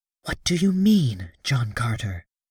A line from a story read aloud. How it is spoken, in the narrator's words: she whispered